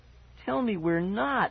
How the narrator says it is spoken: I begged her

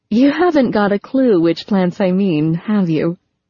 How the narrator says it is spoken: Laughing, said

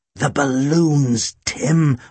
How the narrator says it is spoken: I growled

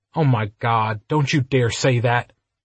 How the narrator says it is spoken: Ryder snapped, falling headlong into fury

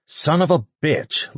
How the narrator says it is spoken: Lucas snarled

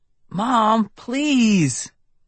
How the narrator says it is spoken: I pleaded

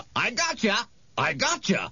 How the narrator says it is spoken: followed by uproarious laughter

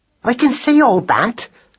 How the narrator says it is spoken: snapped Madeline

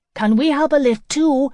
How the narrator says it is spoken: Joey shouted after him

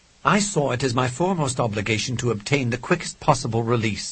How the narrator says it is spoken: said Doyle testily

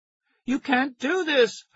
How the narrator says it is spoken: I screamed

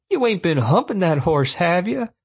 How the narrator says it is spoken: Jared said, laughing at his own joke

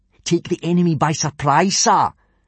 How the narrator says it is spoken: shouted out Snot-Face Snotlout, a tall, unpleasantly smug-looking boy

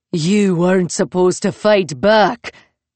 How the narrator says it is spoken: he spat

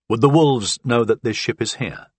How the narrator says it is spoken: I asked

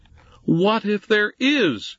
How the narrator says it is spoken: Jesse snapped back

